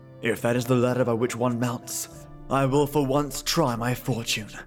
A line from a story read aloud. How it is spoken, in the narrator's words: said he